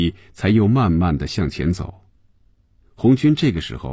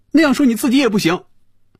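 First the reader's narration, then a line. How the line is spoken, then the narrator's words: Loud. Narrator (Chinese): 菲比大声说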